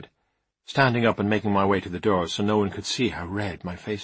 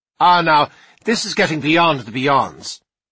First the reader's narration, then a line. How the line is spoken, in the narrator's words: said Miss Joyce, raising her voice